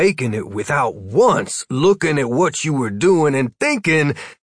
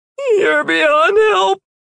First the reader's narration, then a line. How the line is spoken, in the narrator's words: Martin gasped, doubled over with laughter